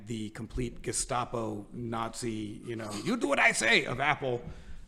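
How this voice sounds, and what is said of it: Put-on German accent. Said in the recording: “That was supposed to be a German accent, but I feel like that might be.”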